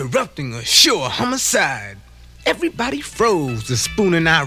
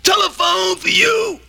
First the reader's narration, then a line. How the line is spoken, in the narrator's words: Grit shouted to Q